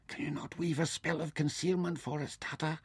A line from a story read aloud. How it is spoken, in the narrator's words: Nefer whispered uneasily